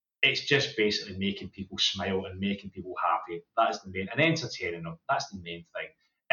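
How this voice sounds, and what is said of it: Fast-talking Scottish accent. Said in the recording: “my crazy fast Scottish accent”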